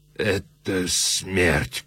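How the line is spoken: Groan. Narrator (Russian): простонал Муро

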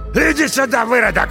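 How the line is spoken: Shout. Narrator (Russian): лысый с окровавленными руками и закричал

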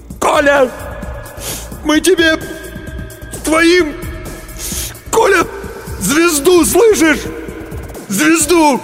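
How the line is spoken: Tearful shout. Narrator (Russian): Демин всхлипнул ... крикнул

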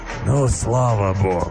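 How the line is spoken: Joyful relieved exhale. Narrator (Russian): Радостно, как мне показалось, выдохнул зверь

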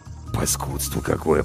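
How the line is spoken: Grumbling mutter. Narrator (Russian): пробурчал Зверев

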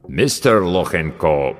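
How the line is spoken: Deep bass, mispronouncing. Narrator (Russian): пробасил авербанкащик, как обычно, безбожно коверкая фамилию

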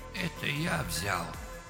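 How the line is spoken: Quiet. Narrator (Russian): тихо сказал бог

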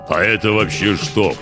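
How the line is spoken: Grumbled. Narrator (Russian): пробурчал наконец Гох

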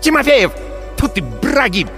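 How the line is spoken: Barking shout. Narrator (Russian): рявкнула валькирия

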